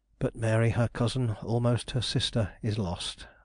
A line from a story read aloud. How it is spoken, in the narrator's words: I muttered